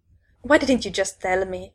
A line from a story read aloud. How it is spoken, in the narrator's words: I snapped